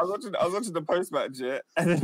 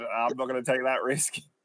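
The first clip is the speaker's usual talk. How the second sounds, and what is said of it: Put-on Australian accent. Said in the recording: “The Australian accent is going to kill me”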